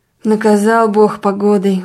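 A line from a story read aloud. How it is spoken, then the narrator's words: Sigh. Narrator (Russian): вздохнула дьячиха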